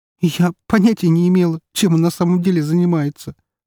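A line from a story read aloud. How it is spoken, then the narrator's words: Sobbing. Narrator (Russian): всхлипнула девушка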